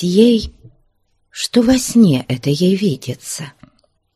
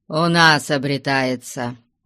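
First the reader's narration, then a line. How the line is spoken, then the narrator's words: Dry. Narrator (Russian): сухо промолвил Потап Максимыч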